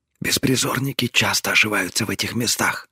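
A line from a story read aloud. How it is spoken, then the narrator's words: Quiet reply. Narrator (Russian): так же тихо ответила она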